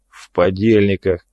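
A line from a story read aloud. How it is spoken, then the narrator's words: Grumbling bosun. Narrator (Russian): проворчал боцман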